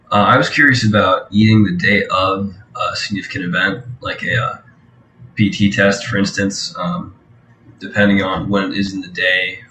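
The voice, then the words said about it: Slightly off, under-the-weather voice. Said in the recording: “Sorry if I sound a little weird. I'm a little under the weather.”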